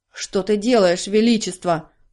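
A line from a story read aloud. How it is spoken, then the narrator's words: Growling. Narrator (Russian): зарычал он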